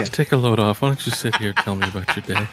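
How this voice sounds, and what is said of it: Man putting on a woman's voice. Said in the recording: “Do a voice as Bo doing a lady voice ... it's not sexy”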